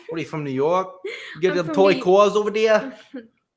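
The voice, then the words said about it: Poorly done put-on New York accent. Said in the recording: “That's a terrible New York. ... Was that like, was a Boston accent? ... That was like a retard or a Jersey.”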